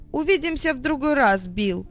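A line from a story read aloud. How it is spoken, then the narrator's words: Shouted over shoulder. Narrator (Russian): крикнул через плечо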